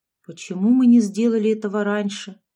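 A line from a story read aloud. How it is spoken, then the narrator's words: Sad sigh. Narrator (Russian): грустно вздохнула Габриэла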